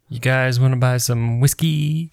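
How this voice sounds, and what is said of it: Corky Romano impression. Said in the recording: “That was my Corky Romano impression.”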